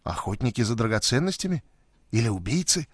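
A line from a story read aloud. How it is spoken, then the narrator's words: Whispered. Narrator (Russian): прошептала Лора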